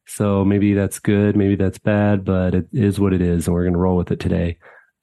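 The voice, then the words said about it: Lower, raspier voice than usual. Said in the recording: “I am under the weather. My voice is a little bit lower and raspier than usual.”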